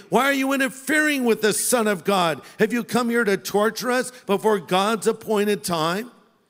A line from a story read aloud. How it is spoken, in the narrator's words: They began screaming at him